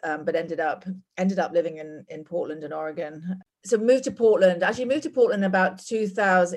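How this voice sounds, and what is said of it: English accent. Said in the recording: “as you can probably tell from my accent, I'm not from here. I'm from England.”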